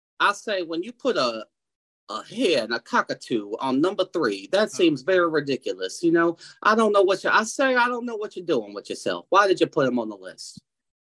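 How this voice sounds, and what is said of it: Foghorn Leghorn Southern drawl impression. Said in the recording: “That accent worked for Dusty Rhodes and it works for Foghorn Leghorn”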